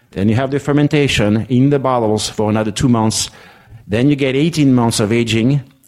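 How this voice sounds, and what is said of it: French accent. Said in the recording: “If you understand French accent”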